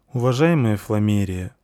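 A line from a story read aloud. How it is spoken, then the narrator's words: Gloomy, dejected. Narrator (Russian): уныло сказал Плексус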